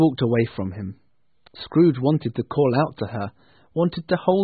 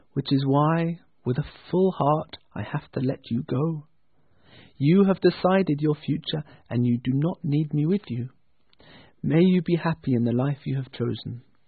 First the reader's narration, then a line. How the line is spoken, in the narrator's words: she answered gently